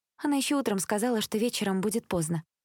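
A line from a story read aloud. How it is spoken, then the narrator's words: Calm, hiding upset. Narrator (Russian): спокойно ответила Элизабет, чтобы не показывать собственного расстройства и тем более не злиться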